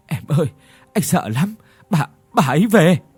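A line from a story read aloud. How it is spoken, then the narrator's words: Trembling old man. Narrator (Vietnamese): Lão run run kể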